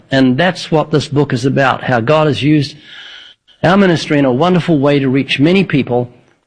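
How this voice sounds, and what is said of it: New Zealand accent. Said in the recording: “the accent. I was thinking maybe Northern Alabama, but New Zealand.”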